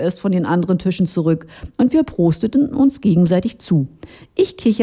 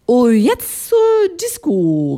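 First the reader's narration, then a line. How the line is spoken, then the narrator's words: Called out. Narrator (German): rief ich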